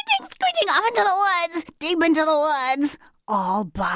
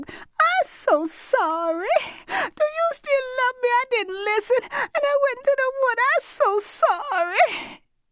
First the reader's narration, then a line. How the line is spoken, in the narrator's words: Jenny Rean sobbed